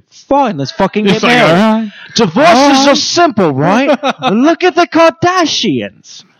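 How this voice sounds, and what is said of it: Poor drunk British accent impression. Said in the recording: “I'm doing a very horrible Russell Brand ... a drunk British accent”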